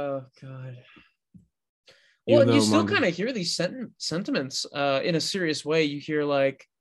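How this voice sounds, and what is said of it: Usual voice. Nothing is said of it.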